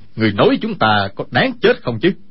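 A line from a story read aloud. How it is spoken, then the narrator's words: Shout. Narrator (Vietnamese): Kha Trấn Ác quát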